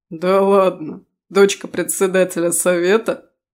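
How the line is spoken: Surprised laugh. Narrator (Russian): удивленно рассмеялся тот

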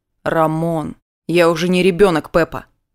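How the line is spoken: Overly harsh, curt. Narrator (Russian): излишне грубо отрезал он

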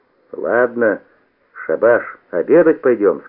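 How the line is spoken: Stern. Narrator (Russian): сказал строго

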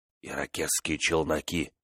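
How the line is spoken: Whisper. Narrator (Russian): шепнул он

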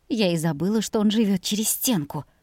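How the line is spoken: Whisper. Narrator (Russian): шепнула мама

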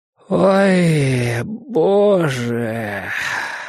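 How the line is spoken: Groaning. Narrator (Russian): простонал Борис

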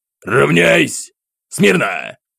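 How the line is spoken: Irritated captain's growled command. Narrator (Russian): Рыкнул капитан, раздражаясь отсутствию реакции с моей стороны

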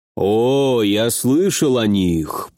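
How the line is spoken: Giant drawling. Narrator (Russian): протянул великан

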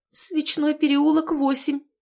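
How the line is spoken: Tearful babbling. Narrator (Russian): залепетала та сквозь слезы

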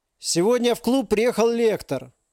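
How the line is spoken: Loud proclaiming man. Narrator (Russian): громко вещал человек в пыльном костюме

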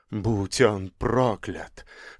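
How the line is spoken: Whisper. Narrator (Russian): шептал художник

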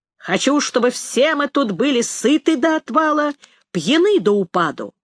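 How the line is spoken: Loud declaration. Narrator (Russian): громко произнес

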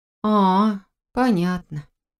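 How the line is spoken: Disappointed drawl. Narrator (Russian): разочарованно протянула я

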